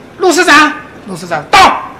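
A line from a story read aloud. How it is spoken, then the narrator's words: Calling out. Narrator (Chinese): 我们的和尚喊了一声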